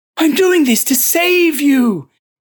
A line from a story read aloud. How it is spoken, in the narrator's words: wailed